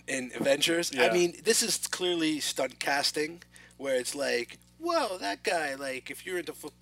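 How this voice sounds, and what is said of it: Usual voice. Nothing is said of it.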